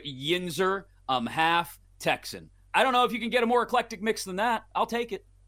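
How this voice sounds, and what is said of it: Usual voice. Nothing is said of it.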